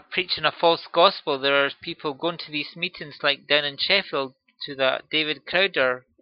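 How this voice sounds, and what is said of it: Speaker's own strong accent. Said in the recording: “I hope you've understood through my accent”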